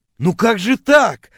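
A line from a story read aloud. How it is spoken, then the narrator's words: Offended wailing. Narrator (Russian): обиженно вопил я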